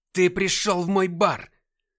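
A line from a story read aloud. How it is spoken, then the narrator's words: Yelled, losing composure. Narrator (Russian): Теряя самообладание, заорал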